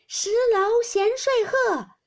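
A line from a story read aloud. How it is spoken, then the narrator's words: Shouting. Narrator (Chinese): 湘云喊道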